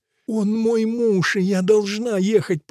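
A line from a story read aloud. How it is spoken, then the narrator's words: Moaning. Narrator (Russian): простонала Бонифация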